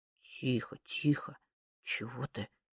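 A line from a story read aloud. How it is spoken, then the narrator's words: Mumbling. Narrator (Russian): забормотал С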